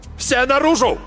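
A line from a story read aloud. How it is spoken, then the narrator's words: Barked. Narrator (Russian): рявкнул Марк Йоган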